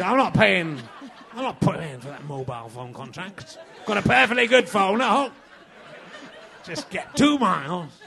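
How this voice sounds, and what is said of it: Put-on Yorkshire accent. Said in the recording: “I do quite a good Yorkshire accent, don't I?”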